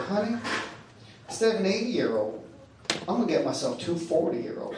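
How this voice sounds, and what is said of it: Posh Southern US accent. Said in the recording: “Very posh Southern accent. She was from Virginia.”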